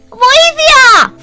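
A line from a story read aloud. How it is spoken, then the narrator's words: Shouted. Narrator (Greek): φώναξε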